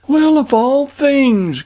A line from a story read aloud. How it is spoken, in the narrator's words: cried the equally astonished Jane